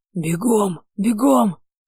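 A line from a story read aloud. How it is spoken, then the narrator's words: Hissed. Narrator (Russian): прошипел мой Бейлиф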